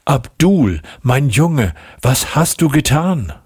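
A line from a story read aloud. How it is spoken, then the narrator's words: Calling out. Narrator (German): rief sie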